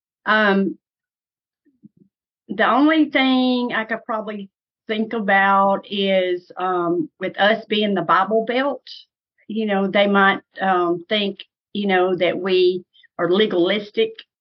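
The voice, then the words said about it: Southern US accent. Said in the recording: “they think we talk too Southern, which, you know, we do. You can tell I have a Southern accent.”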